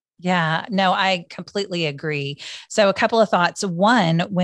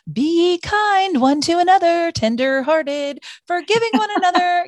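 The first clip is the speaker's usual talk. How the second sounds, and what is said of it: Sing-song voice. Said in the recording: “in a sing songy voice”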